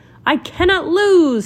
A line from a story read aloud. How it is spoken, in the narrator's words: shouted Yellow, a very boastful sort of fellow